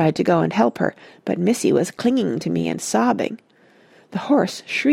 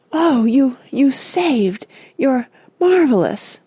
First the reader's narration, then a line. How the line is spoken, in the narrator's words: gasped Joe brokenly